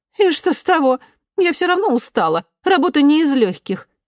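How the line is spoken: Snapping back. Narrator (Russian): огрызнулась Эмили

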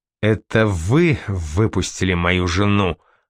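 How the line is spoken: Growled. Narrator (Russian): прорычал

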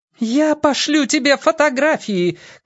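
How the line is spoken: Shouted after someone. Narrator (Russian): крикнула вслед

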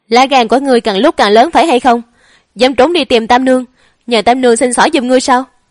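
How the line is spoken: Angry woman. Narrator (Vietnamese): Hồ phu nhân giận dữ

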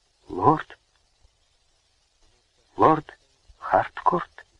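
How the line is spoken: Almost whispering. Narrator (Russian): проговорила она почти шепотом

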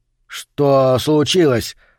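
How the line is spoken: Trembling question. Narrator (Russian): спросил он дрожащим голосом

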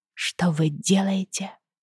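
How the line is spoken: Strained trembling voice. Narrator (Russian): выдавливаю дрогнувшим голосом

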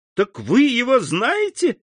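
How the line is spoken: Joyful exclamation. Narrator (Russian): воскликнула Жюли с заблестевшими от радости глазами

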